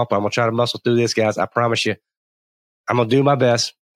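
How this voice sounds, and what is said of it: Congested voice from a cold. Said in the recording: “I have had a terrible cold ... if my voice sounds a little bit off”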